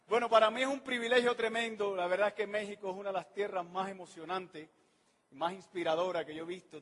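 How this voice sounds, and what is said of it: Accent that drops R and S sounds. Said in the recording (Spanish): “Le pido disculpas por mi acento, por las R que me como, por las S que me voy a comer.”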